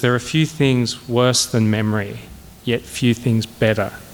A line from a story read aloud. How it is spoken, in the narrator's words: he had said